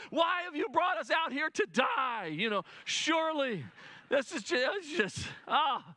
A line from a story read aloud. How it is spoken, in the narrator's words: the whole family is yelling